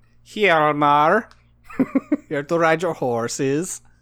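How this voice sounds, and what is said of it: Put-on accent. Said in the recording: “I don't know where that accent went.”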